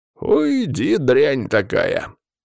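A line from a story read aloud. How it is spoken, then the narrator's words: Growling old woman. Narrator (Russian): зарычала бабуля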